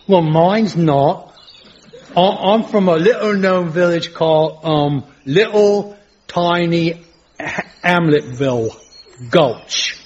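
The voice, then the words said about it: Put-on accent that keeps changing. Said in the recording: “it has this unique accent, which keeps changing”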